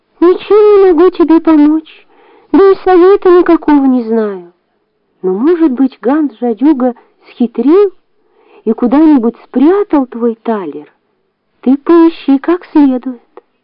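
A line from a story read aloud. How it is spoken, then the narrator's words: Sad. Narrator (Russian): Грустно ответил ей человечек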